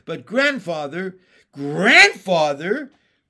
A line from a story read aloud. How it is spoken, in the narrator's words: cried Jesse